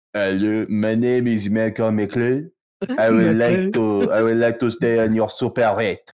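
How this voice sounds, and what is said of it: Put-on French accent, dropped T's. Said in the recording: “giving Malcolm a French accent ... Was that more French than Russian? ... Absolutely ... He just doesn't pronounce any of the T's”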